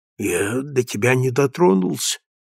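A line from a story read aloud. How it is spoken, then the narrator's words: Muttering. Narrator (Russian): пробормотал он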